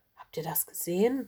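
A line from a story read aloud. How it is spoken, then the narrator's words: Murmured. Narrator (German): murmelte sie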